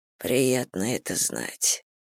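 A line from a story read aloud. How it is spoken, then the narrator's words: Groaning with effort. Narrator (Russian): простонал Зейн, заставляя себя сесть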